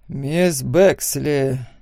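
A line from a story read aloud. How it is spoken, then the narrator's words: Heavy sigh. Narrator (Russian): тяжело вздохнул судья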